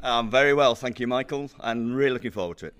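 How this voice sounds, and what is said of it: Broad Yorkshire accent. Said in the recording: “your broad Yorkshire accent ... I've still retained my Yorkshire accent”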